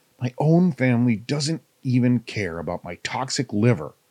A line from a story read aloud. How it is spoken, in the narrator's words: he muttered bitterly to himself